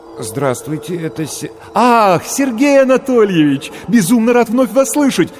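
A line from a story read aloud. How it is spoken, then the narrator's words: Joyful rapid chatter. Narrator (Russian): радостно затараторил голос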